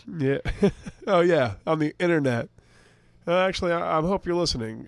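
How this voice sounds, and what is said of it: Raspy voice. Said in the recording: “the sweet sound of my raspy voice”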